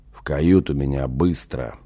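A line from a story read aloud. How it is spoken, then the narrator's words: Pained hoarse wheeze. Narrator (Russian): захрипел Афах, корчась на раскаленных жарким солнцем железных листах палубного настила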